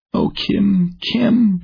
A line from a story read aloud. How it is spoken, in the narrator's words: she sobbed